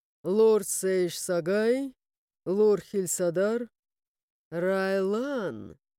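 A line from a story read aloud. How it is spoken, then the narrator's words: Drawn-out, smirking. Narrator (Russian): Кристиан протянул с ухмылкой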